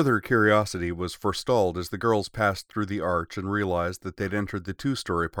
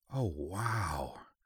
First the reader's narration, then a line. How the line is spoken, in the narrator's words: Yui breathed